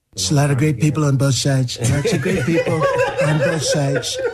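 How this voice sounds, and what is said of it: Donald Trump impression. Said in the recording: “Jamie Foxx and his Donald Trump impression”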